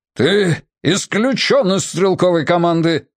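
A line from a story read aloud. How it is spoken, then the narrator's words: Bellow. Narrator (Russian): гаркнул ОБЖ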